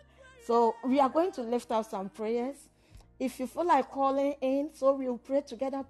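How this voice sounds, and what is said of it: Strained, fading voice from a cold. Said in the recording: “I'm totally losing my voice. I've had cold for some time now, and I'm really struggling to talk.”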